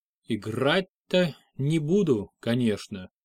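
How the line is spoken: Slow, careful. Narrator (Russian): медленно начал он, аккуратно подбирая слова

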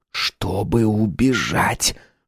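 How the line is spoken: Whisper. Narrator (Russian): шепнул Харрис

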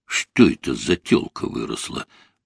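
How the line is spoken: Muttering boar. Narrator (Russian): пробормотал хряк

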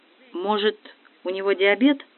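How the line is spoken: Timid mother's question. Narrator (Russian): робко спросила мать

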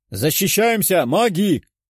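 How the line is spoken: Shouting. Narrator (Russian): прокричал лорд

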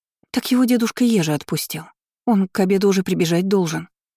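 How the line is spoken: Frightened rapid chatter. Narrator (Russian): испуганно затараторила Оленя

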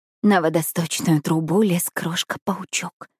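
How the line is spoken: Hoarse mutter. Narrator (Russian): хрипло бормочу

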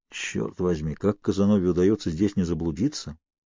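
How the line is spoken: Mutter. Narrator (Russian): пробормотал я

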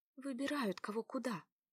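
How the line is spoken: Whispered in ear. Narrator (Russian): шепнула Заряне на ухо ее знакомая

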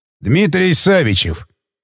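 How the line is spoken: Official tone. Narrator (Russian): произнес он официальным тоном

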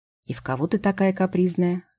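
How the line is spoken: Sighing fairy. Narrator (Russian): вздохнула фея

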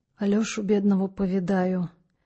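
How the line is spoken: Dejected voice. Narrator (Russian): упавшим голосом закончил Митрофаний

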